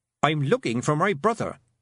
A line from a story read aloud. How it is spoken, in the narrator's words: said Tiffany sharply